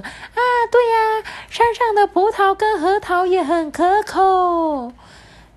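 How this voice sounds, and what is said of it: Shrill squirrel wife character voice. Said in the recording (Chinese): “假装是那个松鼠的老婆，发出尖锐的声音说”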